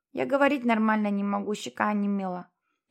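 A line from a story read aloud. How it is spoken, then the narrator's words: Lisping boy, numb cheek. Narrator (Russian): прошепелявил мальчик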